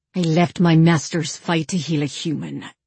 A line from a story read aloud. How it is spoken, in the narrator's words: Cown snarled at the armed warrior